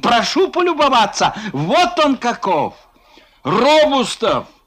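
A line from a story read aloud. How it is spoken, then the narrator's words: Shouting. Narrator (Russian): кричал Фома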